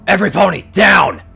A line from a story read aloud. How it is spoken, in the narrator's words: Shifting bellowed